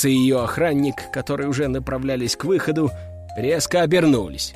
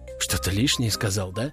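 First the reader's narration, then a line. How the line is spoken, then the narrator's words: Whisper. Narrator (Russian): прошептал я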